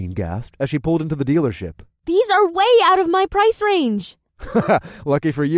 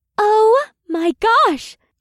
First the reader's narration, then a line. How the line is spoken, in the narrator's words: Leah gasped